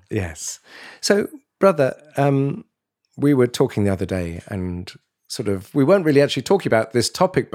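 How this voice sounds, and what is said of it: Congested head-cold voice. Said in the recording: “I've got a little bit of a head cold ... my voice may sound a little strange”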